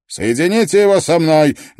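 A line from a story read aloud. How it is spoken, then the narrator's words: Barking shout. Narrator (Russian): гаркнул Грисдейл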